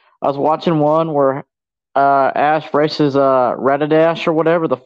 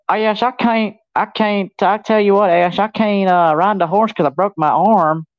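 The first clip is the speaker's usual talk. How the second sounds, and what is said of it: Put-on thick country Southern accent. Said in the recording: “why do you make her sound so country? ... just because you ride horses doesn't mean you're from Alabama ... sound like you had a thicker accent”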